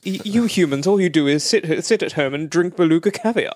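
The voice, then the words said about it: Hugh Grant impression, posh English accent. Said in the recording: “What would it have been like had Hugh Grant taken on this role? ... The accent wouldn't have worked. ... I'm doing it now.”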